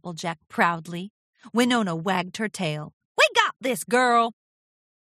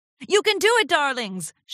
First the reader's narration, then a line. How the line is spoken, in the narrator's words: shouted Rarity